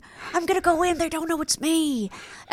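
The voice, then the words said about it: Imitates another person's voice. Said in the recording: “That was a solid impression.”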